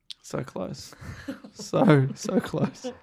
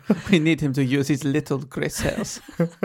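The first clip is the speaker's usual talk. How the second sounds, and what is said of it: Attempted Belgian accent. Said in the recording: “I think that was a Belgian accent you just did.”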